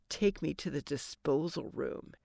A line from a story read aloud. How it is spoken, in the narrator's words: murmurs